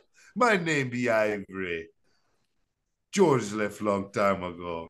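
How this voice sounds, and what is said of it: Put-on Jamaican accent. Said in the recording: “picked up this crazy Jamaican accent”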